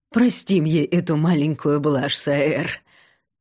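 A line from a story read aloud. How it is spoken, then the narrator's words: Chuckling. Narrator (Russian): хохотнул Фисин папочка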